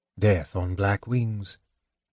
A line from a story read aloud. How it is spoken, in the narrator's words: Tanis said softly